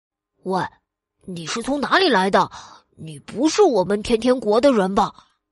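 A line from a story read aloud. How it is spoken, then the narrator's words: Low, serious voice. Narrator (Chinese): 小男孩一脸严肃的表情，压低了声音说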